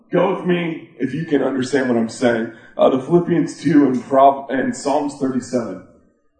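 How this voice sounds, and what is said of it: Sick, weird-sounding voice. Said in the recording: “my voice is going to sound weird because I'm going to get sick ... I got this cold in Canada”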